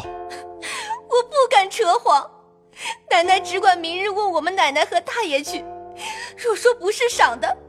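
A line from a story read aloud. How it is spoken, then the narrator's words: Crying plea. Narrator (Chinese): 入画跪哭道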